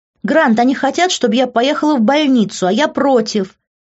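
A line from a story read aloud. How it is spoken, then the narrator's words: Loud shout. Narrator (Russian): громко крикнула Лив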